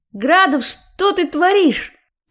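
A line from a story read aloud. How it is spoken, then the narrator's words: Shouted. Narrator (Russian): прокричала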